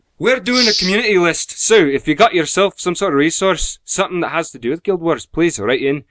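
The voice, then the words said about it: Put-on Scottish accent. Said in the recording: “I'm still trying to place where exactly in Scotland you're meant to be from ... I'm just doing an accent”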